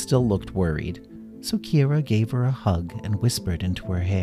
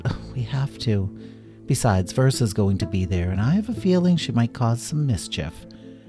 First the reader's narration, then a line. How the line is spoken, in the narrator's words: Kira sighed, and she said